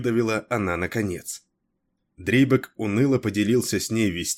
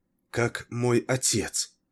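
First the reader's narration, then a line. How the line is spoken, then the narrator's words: Barely audible question. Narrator (Russian): еле слышно спросила она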